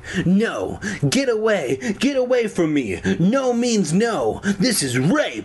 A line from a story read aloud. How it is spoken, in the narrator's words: I howled